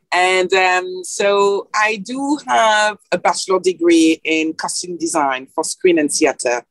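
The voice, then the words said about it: French accent. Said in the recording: “obviously I'm from Paris. I think you can tell from the accents. That never fade away”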